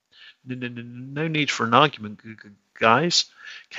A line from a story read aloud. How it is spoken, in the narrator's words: came a stuttering voice